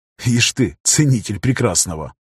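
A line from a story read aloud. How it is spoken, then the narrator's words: Scoffing under breath. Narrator (Russian): хмыкнул про себя пограничник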